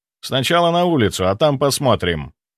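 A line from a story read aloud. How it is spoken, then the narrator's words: Dry answer. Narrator (Russian): сухо ответил я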